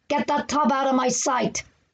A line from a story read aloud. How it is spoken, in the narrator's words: bellowed McCoy